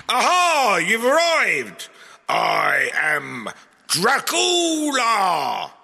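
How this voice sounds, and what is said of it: Theatrical Dracula vampire accent. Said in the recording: “Count Dracula... Your accent threw me a bit there.”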